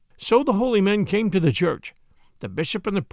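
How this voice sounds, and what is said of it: Usual voice. Nothing is said of it.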